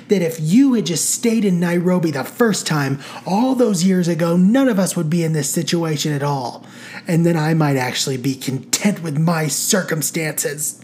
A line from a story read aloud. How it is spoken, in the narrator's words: barked Marcy